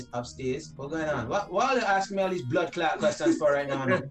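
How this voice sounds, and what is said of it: Heavy accent in reenacted speech. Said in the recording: “with a heavy accent like how I had”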